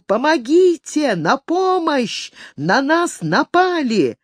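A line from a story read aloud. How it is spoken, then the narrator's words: Boy yelling at full strength. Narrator (Russian): мальчишка что было мочи завопил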